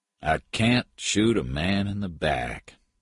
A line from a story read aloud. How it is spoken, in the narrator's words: Patton said sadly